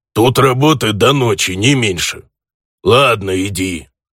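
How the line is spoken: Offended orc grumbling. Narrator (Russian): проворчал орк, явно обидевшись на мою грубость

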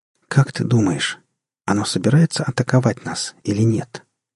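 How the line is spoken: Quiet question. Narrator (Russian): тихо спросила она капитана

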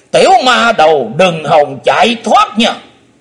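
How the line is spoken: Shouting. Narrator (Vietnamese): Âm ma giáo chủ bắn mình tới quát

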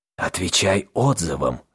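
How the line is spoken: Whispered. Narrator (Russian): шепотом сказал Белозор пленнику

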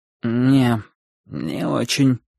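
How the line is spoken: Sleepy. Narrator (Russian): сонно ответил он

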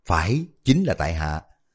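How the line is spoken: Smiling reply. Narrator (Vietnamese): Liễu Quân Bảo mỉm cười đáp

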